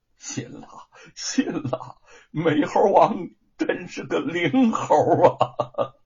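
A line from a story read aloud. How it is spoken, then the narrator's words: Tearful yet smiling. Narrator (Chinese): 张氏含泪带笑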